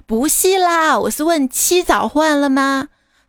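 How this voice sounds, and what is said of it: Cantonese-accented Mandarin. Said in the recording (Chinese): “听你口音好像是广东人”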